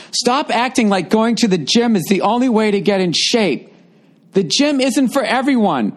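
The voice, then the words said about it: Loud, yelling delivery. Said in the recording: “Why are you yelling it? Is it in all caps?”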